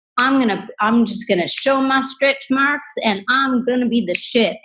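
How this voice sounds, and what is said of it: Put-on Southern accent. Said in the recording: “you put on a Southern accent for that”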